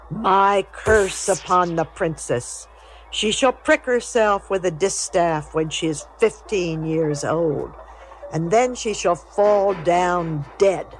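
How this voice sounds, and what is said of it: Loud, angry proclamation. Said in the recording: “called out in a loud voice”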